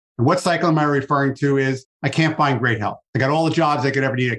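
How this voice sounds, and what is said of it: Slight New York accent. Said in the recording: “If the accent is a little bit still there from New York”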